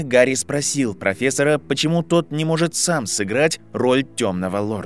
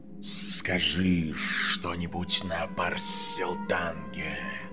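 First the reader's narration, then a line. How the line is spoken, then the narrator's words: Snake's hiss. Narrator (Russian): прошипела змея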